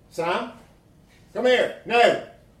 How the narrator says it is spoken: She shouted

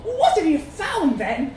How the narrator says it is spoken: Simone cried

